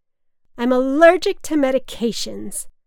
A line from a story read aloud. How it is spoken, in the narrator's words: my mother slurred